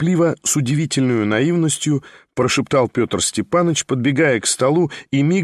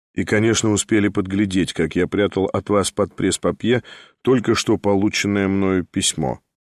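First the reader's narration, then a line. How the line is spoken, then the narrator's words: Calm. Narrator (Russian): спокойно проговорил Николай Всеволодович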